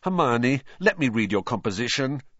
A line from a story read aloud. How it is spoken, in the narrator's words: said Ron desperately